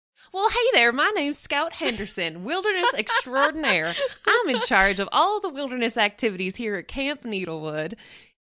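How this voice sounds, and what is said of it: Character voice with put-on accent. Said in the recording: “every time you just bust out a new voice ... which accent you'll do”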